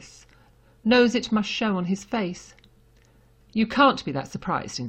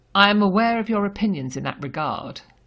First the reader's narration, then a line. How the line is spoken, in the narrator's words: the Commissioner says coldly